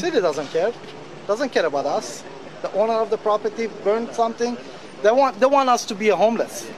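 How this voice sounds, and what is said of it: Speaks with a foreign accent. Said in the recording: “based on the accent and look of the individual, this is an immigrant”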